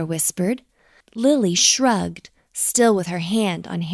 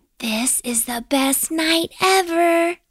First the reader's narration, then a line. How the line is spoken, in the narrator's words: Lily whispered